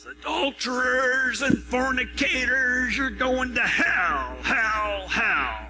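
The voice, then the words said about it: Imitated street preacher yelling. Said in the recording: “my best impersonation”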